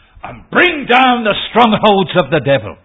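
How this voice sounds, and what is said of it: Raised, loud preaching voice. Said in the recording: “raising my voice”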